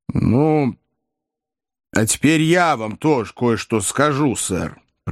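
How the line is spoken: Composed, solemn. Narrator (Russian): произнес мистер Уэллер невозмутимым и торжественным тоном

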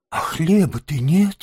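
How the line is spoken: Heavy sigh. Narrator (Russian): тяжко вздохнул крот

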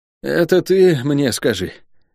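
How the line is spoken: Weary. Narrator (Russian): устало произнес он

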